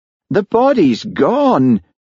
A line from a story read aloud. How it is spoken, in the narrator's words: wailed Hamish